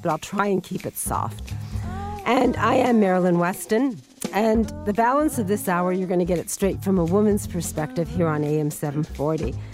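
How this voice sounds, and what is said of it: Squeaky voice. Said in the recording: “I have a bit of a cold, so I apologize for the squeaky voice”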